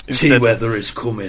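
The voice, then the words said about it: Imitates an actor's accent. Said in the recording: “an impression of Sean Bean saying the catchphrase of Game of Thrones ... it's such a good accent, isn't it? I love his accent.”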